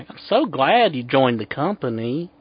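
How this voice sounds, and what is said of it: Put-on Southern accent. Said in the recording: “That damn southern accent”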